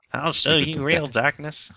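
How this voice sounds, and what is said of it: Weird nerdy character voice. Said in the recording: “like a really weird nerd voice”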